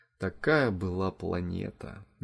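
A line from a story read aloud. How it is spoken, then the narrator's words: Quiet, heartfelt. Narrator (Russian): негромко и с чувством повторил Вовка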